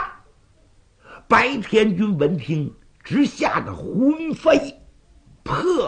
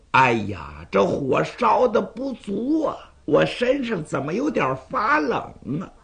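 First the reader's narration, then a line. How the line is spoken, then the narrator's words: Cold sneering laugh. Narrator (Chinese): 有人冷笑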